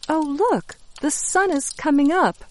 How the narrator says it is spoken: Hope says happily

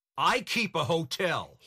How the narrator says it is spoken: he shouted

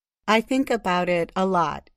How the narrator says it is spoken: he said

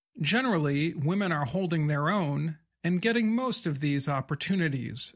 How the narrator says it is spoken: Wright said

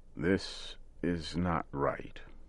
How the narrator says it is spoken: old Joe said slowly and carefully

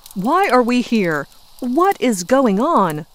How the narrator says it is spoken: Major Jack finally loses his cool and yells at the group

